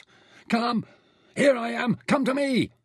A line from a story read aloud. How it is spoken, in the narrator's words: Nefer yelled wildly